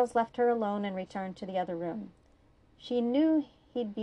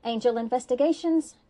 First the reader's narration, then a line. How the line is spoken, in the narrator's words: Cordelia answered brightly